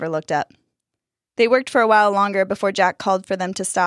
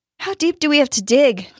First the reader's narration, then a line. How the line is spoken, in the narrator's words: Dustin panted